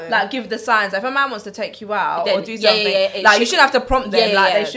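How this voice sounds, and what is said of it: Usual voice. Nothing is said of it.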